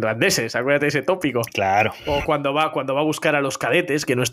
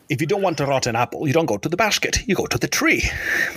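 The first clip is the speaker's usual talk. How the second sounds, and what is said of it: Imitates another person's voice, English. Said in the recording (Spanish): “con ese acento ... decir algo con voz de, Sean Connery”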